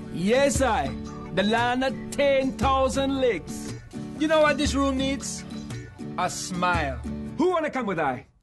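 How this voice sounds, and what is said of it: Put-on laid-back Jamaican patois accent. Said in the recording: “a white dude from Minnesota speaking Jamaican patois ... a white actor mimicking a laid-back black Jamaican”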